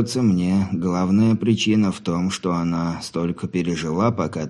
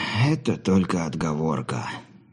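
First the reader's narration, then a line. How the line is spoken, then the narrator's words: Sighing old man. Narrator (Russian): вздохнул старик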